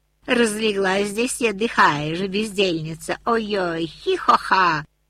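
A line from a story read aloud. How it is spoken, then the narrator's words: Terrible laughter. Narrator (Russian): Рассмеялась она, и смех ее был ужасен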